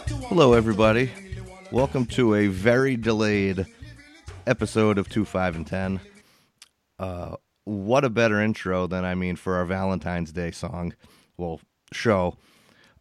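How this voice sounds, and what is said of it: Very raspy sick voice. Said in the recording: “I've been sick. I'm extremely raspy. I sound like shit.”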